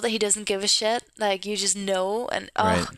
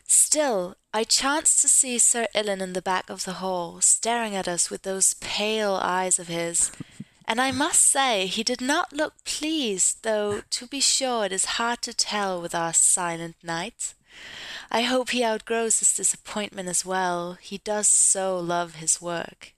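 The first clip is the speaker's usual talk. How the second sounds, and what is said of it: Convincing put-on British accent. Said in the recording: “That's a very convincing British accent.”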